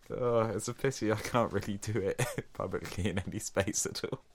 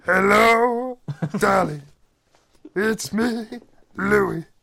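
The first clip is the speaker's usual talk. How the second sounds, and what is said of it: Good imitation of another person's voice. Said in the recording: “I feel like I'm on the phone with Louis Armstrong ... You do a good impression of old Louis Armstrong.”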